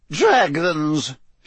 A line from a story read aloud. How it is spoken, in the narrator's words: she said in a disgusted tone